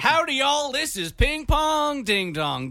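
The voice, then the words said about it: Put-on American accent. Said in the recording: “with an American accent”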